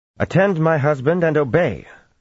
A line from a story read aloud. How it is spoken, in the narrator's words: Fahil put in sharply